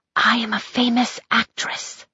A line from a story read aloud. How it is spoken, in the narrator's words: she whispered back